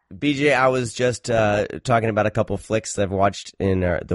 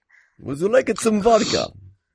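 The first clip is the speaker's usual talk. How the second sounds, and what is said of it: Bad put-on Russian accent, drifting Italian. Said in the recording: “talking with Russian accents ... You like turned like Russian Italian ... your bad impression ... a bad impersonation”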